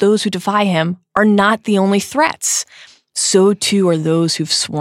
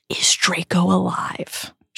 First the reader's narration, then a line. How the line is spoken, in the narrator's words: she whispers